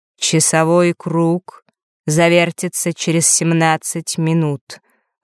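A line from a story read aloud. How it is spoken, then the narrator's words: Even, flat voice. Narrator (Russian): ровным голосом произнес Астариус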